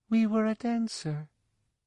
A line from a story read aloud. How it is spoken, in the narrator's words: said wistfully, talking to herself